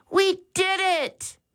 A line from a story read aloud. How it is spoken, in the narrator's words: Max exclaimed